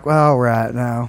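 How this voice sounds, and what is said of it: Slips into a Southern accent. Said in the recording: “I will just slip into a Southern accent if you give me enough beers... Or if I'm tired... why are you doing a Bill Clinton impression?”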